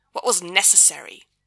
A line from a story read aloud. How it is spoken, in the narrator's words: the Archangel snaps